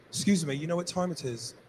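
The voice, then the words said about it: Put-on English accent. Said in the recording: “the accent is beautiful... McDonald's England”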